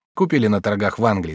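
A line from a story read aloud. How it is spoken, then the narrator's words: Plain. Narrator (Russian): сказал я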